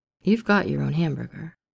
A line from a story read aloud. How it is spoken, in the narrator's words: Steve said